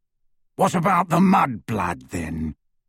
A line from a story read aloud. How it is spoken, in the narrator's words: growled Greyback